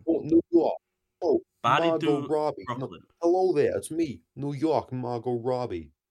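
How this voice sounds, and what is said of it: Put-on New York accent. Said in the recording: “That's a bit of Queens... that's not quite Brooklyn”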